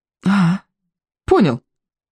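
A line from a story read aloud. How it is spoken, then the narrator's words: Breathless exhale. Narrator (Russian): выдохнул Икинг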